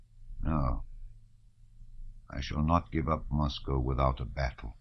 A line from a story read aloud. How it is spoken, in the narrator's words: Kutuzov muttered softly